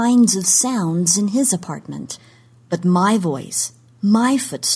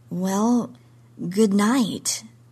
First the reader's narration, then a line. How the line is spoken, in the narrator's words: I said weakly